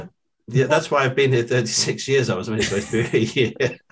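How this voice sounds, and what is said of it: British accent. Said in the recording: “having a British accent”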